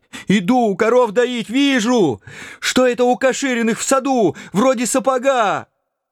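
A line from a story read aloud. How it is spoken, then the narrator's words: Furious shouting old man. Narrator (Russian): яростно закричал дед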